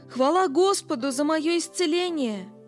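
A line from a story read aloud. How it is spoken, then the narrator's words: Shouting. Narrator (Russian): он часто вставал и кричал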